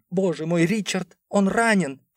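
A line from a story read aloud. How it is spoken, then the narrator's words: Distraught woman sobbing. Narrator (Russian): Поверженная женщина беззвучно разрыдалась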